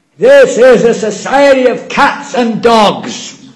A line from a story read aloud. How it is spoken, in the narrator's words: He's shouting